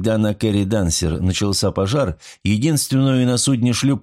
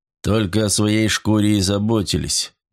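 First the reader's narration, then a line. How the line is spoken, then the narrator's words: Gloomy interruption. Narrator (Russian): мрачно перебил его Николсон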